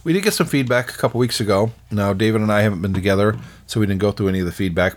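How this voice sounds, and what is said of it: Slightly hoarse, strained voice. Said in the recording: “I'm actually losing my voice a little bit here because I'm doing all of the talking”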